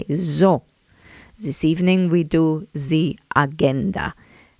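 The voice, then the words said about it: Put-on German accent, bad acting. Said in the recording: “my very bad acting ... Please excuse my German accent.”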